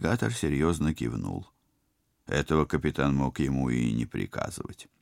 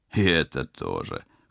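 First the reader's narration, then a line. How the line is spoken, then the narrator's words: Pleased chuckle. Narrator (Russian): хохотнул пилот, довольный догадливостью друга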